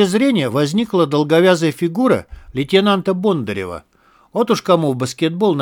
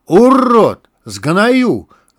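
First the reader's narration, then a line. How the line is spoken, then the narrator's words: Yelled. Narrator (Russian): заорал лейтенант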